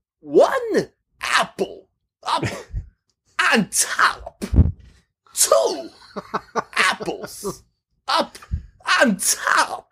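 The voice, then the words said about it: Imitates another person's voice. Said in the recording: “my Christopher Walken ... that accent ... in a funny voice”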